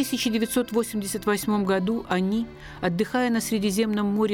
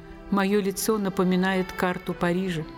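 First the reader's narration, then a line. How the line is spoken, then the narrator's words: Grim joking. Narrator (Russian): Актриса сама мрачно шутила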